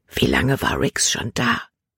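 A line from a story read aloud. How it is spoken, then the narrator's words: Whispered. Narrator (German): flüsterte sie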